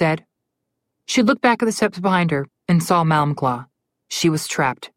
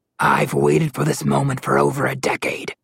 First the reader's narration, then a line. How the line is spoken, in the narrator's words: Malamclaw growled